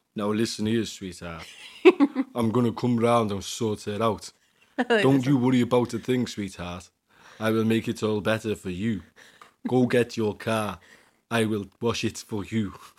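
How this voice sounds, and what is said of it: Tough gangster character voice. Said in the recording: “The big gangster man ... What a strange gangster.”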